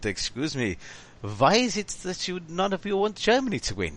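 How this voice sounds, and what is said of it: Put-on German accent. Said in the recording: “Listening to that accent, I'm walking down unto the Linden ... of Berlin.”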